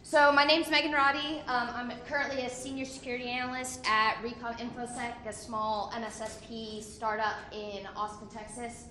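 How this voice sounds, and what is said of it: Crackly, strained, nearly lost voice. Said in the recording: “my voice is almost gone ... forgive me for the crackly voice”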